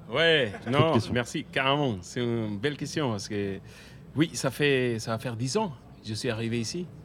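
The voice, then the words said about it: Venezuelan accent speaking French. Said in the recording (French): “on l'entend, avec cet accent ... Venezuela, il me semble”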